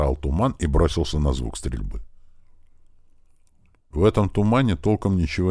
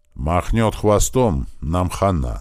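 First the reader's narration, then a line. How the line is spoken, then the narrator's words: Through gritted teeth. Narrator (Russian): сквозь зубы сказал Туман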